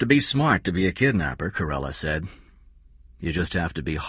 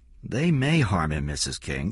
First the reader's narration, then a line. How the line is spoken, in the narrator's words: Corella said calmly